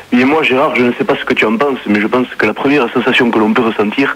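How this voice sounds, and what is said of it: Put-on southern French accent. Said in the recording (French): “tu prends pas ton accent marseillais ... tu as l'accent marseillais ... j'ai l'accent toulousain”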